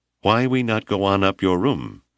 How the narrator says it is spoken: he asked evenly

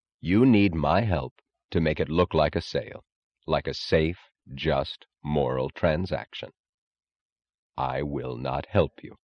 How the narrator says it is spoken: Reardon said evenly, in the grave, unstrained tone of finality

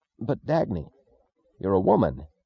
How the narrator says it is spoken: He gasped

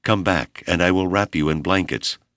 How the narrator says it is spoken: Compassionately, Abner pleaded

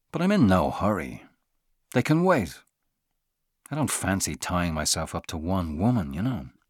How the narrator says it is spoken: said in a calmer tone

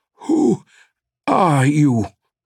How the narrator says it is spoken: the man stammered

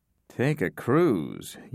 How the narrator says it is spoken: Yank mumbled

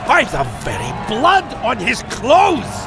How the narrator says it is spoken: shouted the chief of the Argyles

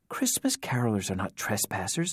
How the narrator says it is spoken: Nora insisted, practically whispering

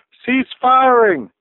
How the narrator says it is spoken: the mechanical voice boomed

